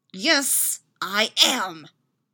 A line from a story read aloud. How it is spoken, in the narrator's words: Styles hisses